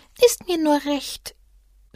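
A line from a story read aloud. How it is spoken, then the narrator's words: Small animal sighing. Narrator (German): seufzte das kleine Tier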